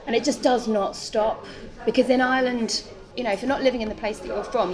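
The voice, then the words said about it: English accent. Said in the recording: “If I have my English accent on, and I do feel like it's, you know, it's my, this is my kind of my default. The Irish one slips out sometimes by accident”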